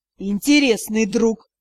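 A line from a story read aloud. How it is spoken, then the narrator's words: Hissed, half-orc. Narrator (Russian): прошипел полуорк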